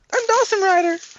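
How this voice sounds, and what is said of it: High girlish voice imitating another person. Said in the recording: “I have a girl voice ... That's strangely accurate ... It's terrifying how accurate that is”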